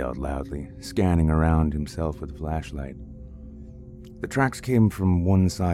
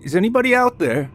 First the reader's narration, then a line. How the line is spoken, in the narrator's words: James yelled again into the woods